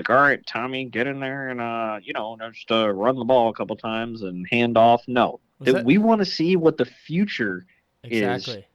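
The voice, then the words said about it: Imitates another person's voice. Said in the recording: “That was a horrible Gus impression.”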